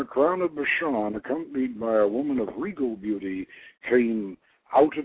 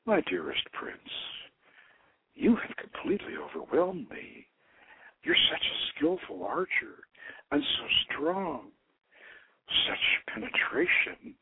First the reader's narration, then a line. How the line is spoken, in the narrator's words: murmured